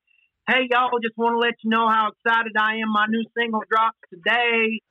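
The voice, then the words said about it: Put-on accent. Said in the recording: “everyone from Alberta just puts on an accent.”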